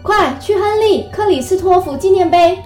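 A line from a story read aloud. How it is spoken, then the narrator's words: Panting, urgent shout. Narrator (Chinese): 卡斯特拉喘着气，急喊着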